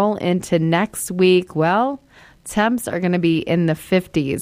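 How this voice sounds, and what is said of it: Usual voice. Nothing is said of it.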